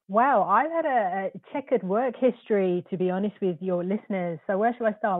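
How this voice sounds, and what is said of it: Crisp, clear British accent. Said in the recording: “your accent. I'm always jealous of the British accents. They sound so good and so crisp and clear.”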